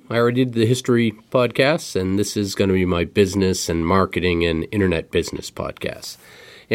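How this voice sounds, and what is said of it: Rough, hoarse voice from illness. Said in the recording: “my voice is a little sexy today... I decided to get sick this week... my voice may be a little rough”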